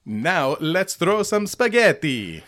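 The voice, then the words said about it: Dramatic put-on Italian accent. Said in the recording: “Dramatic. ... just the Italian accent. ... Flamboyant. ... it was a pretty good Italian accent.”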